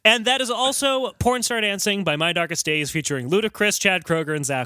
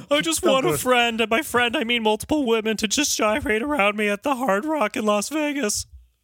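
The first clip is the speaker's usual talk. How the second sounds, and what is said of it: Imitates another person's voice. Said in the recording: “That's my Chad Kroeger impression.”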